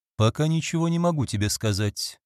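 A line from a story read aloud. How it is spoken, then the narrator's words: Muffled reply. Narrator (Russian): глухо отозвался Роберт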